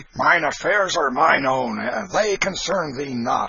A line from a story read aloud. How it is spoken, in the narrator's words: answered Canty roughly